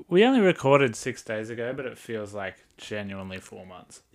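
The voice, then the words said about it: Sick-sounding voice. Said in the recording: “I need to apologize for my voice. I am quite unwell.”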